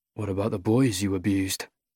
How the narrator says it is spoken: I mutter, under my breath

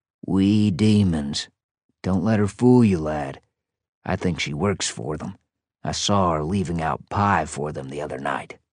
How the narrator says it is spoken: Then he whispered

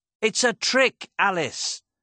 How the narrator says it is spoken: Dodge shouted

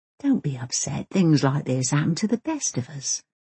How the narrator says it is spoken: whispers Ben's mother encouragingly

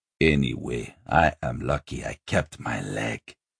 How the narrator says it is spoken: he growled

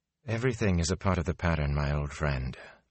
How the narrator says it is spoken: Moraine replied softly

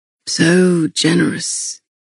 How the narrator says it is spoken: he rasped

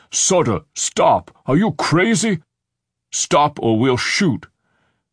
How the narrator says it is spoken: Frank's deep voice booming from the window

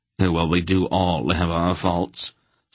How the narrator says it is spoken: Silk admitted blandly

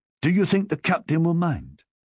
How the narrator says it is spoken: Alpha asked anxiously

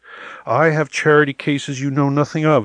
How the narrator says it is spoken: he shouted

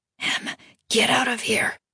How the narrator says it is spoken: Aaron breathed

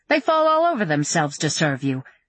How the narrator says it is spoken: Susanna laughed

